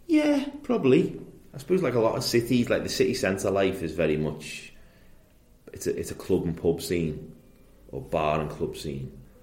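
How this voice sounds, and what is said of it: Liverpool accent. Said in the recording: “you grew up in Liverpool, obviously, from the accent.”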